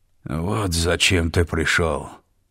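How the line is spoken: Reproachful rasp. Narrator (Russian): С укором прохрипел младший брат

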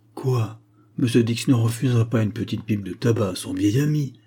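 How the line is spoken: Whining. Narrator (French): gémit Bark

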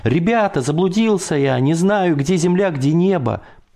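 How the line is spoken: Shouted. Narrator (Russian): Закричал я

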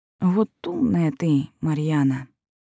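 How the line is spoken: Sad sigh, smiling. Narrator (Russian): С грустной улыбкой вздохнула Райвер

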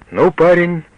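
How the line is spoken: Cheerful. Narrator (Russian): бодро сказал Ганзелин

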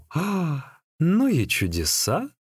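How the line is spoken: Amazed exclamation. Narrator (Russian): в изумлении воскликнул

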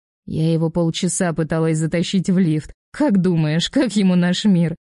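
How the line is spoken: Laughing at a memory. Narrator (Russian): От воспоминания об этом начинаю смеяться

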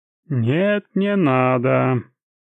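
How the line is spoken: Sing-song reply. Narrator (Russian): ответил почти что нараспев

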